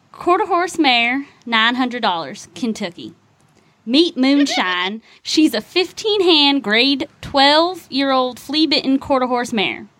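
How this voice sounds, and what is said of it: Put-on Kentucky Southern accent. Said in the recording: “you have to do this one in your best Kentucky accent”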